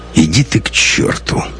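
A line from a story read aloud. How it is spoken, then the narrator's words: Weary, curt. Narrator (Russian): устало бросил Лекс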